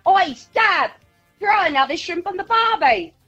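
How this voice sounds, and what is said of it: Exaggerated fake Australian accent. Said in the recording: “real Aussie accent or whether it's a fake one ... You sound like a convict ... It's a bit over the top ... she's like bunging it on”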